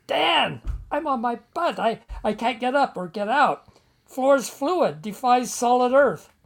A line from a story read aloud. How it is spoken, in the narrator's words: shouting from my own terror, I said